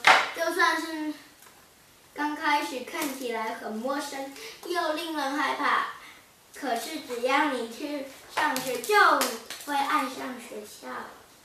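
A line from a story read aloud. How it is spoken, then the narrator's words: Gentle. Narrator (Chinese): 妈妈温柔地说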